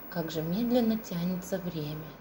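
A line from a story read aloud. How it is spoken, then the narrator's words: Quiet mutter. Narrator (Russian): тихо пробормотала она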